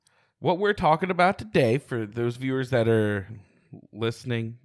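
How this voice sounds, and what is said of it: Usual voice. Nothing is said of it.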